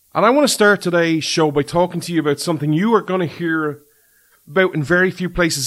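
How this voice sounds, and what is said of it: Irish accent. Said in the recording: “This Irishman ... you come for the accent”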